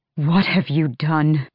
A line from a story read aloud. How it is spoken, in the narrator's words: Ren breathed